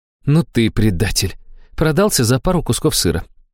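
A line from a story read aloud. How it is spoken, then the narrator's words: Sighing reproach. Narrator (Russian): вздохнула Аштира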